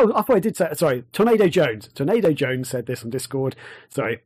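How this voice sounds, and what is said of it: Usual voice. Nothing is said of it.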